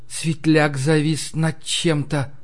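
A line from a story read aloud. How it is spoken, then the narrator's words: Whispered. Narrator (Russian): прошептала Ларри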